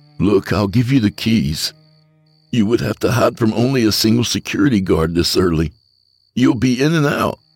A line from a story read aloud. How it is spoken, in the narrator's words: Desperate, pleaded